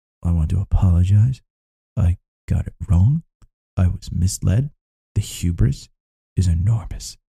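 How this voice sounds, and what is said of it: Imitates another person's voice. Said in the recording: “best Jim Cramer impression”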